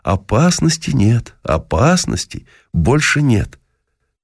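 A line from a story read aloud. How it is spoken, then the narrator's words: Reassuring. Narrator (Russian): мы стали уверять ее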